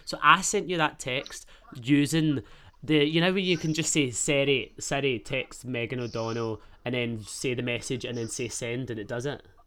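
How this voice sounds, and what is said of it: Glaswegian Scottish accent. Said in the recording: “my Glaswegian, my Scottish accent”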